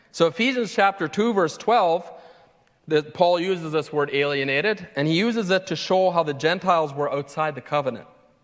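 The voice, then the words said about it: Foreign accent. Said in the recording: “a foreigner, which you guys would get when you listen to my accent”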